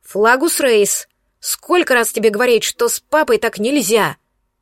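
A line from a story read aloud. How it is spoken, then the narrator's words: Menacing bark. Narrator (Russian): грозно рявкнула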